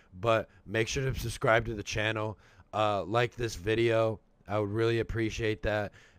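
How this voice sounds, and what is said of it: Sick-sounding voice. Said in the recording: “excuse my voice. I'm a little bit under the weather right now. I've been sick for the past couple of days ... if it kind of sounds sick to you”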